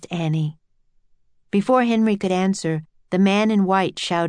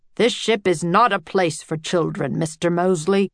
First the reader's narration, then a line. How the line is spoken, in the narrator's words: said gruffly